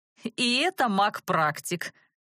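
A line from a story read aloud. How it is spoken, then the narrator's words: Mocking chuckle. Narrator (Russian): обидно хохотнул мрак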